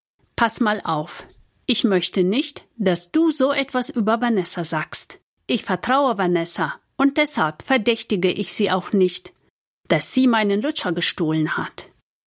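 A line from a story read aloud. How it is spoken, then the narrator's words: Firm voice. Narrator (German): Nina … sagt mit fester Stimme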